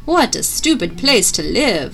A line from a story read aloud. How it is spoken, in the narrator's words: sputtered the elf